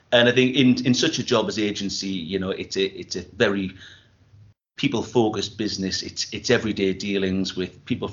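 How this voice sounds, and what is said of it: Northeast English accent. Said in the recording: “as you can probably tell from the accent, I'm Northeast based myself”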